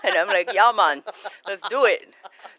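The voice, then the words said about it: Put-on accent. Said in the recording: “That's my best accent”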